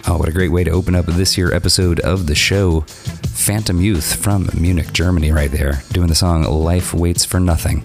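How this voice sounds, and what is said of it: Hoarse, sore-throated voice. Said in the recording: “please excuse my voice, I have a sore throat.”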